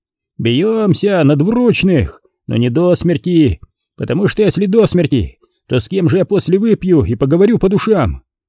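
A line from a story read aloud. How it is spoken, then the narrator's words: Drunken shouting. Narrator (Russian): так наклюкались вдвоем … они все кричали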